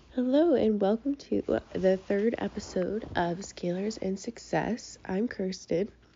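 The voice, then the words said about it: Rough, congested voice. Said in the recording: “my voice sounds crazy. I have a little bit of a cold.”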